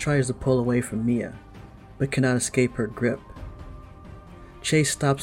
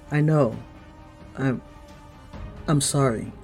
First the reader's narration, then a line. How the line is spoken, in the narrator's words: Chase says